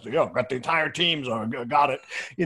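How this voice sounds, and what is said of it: Imitates another person's voice. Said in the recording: “Was that a good impersonation? ... That was a great impersonation.”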